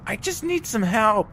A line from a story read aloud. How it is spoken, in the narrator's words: The woman yells